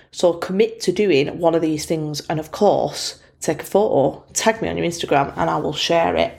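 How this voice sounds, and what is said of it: Bolton English accent. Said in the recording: “my Bolton accent”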